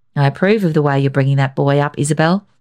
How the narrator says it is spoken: George Powell said

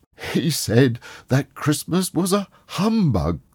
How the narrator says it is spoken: cried Scrooge's nephew

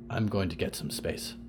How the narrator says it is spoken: Percy muttered

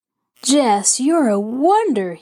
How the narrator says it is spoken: he exclaimed

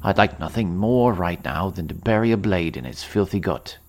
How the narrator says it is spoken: Dithkinir sneered

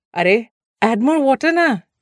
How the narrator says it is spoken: Didi called out from the kitchen window

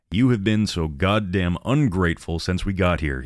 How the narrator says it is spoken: slurred

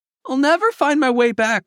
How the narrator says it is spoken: cried Lily

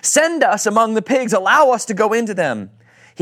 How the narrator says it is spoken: The demons begged Jesus

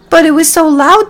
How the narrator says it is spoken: the mice cried

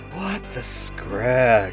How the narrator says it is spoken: muttered to myself

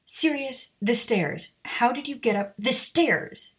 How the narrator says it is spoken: snapped

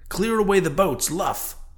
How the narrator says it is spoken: cried Ahab

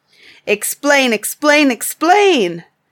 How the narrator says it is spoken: cried all the tribe of Tegumai

